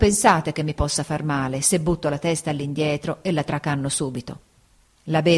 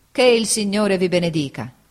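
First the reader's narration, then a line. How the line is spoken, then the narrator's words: Exclaimed. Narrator (Italian): egli esclamò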